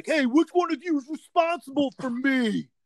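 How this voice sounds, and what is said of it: Mocking put-on character voice. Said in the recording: “your autism impression.”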